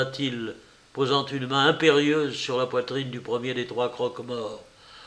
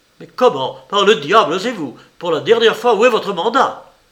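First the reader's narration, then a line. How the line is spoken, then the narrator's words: Furious yelling. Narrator (French): hurla Peter, sort de lui, son visage furibond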